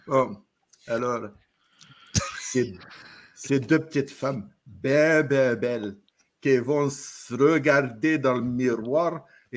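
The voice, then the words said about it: Put-on Québécois French accent. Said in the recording (French): “avec un accent québécois ... Je sais pas le faire, l'accent québécois.”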